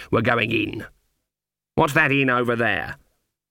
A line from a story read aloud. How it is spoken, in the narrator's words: said, setting her jaw firmly